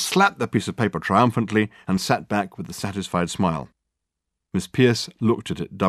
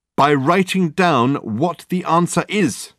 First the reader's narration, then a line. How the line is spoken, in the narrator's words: exclaimed Dirk